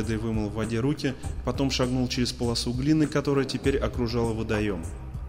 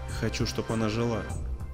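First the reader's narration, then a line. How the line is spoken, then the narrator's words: Dry. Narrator (Russian): сухо сказал Холидей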